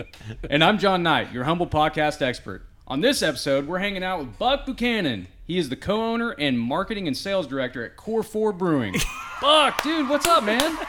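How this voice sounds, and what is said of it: Southern American twang. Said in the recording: “I'm from the South, man. My twang gets mixed up.”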